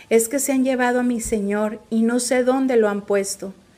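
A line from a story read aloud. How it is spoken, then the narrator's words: Plain. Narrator (Spanish): les respondió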